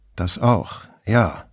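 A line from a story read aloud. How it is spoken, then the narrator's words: Plain. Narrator (German): sagte Brunetti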